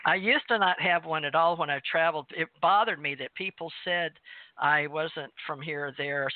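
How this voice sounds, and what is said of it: Southern US accent. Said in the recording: “my southern accent ... I spent 20 years in Kentucky”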